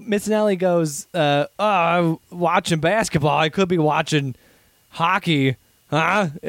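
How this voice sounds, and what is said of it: Imitates another person's voice. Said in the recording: “your Mike Missinelli impression is spot on”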